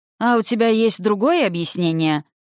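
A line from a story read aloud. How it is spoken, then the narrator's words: Mocking question. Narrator (Russian): насмешливо поинтересовался наставник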